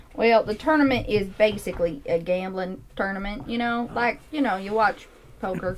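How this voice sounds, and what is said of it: Put-on Southern drawl. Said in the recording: “Southern drawl.”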